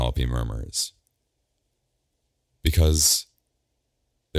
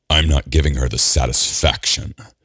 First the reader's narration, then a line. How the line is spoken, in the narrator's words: Gabriel growls